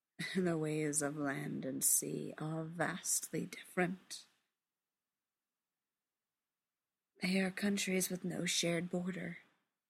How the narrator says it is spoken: Ariel says quietly

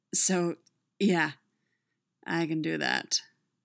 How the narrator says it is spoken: he said, his voice bottomed out and hoarse

